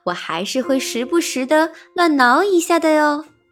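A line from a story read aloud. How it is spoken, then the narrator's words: Smiling. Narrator (Chinese): 章鱼笑眯眯地说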